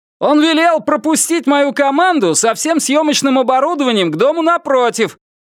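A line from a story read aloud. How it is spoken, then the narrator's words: Shouted. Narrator (Russian): прокричал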